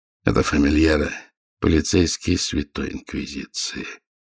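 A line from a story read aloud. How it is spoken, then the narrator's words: Grim statement. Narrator (Russian): мрачно сообщил он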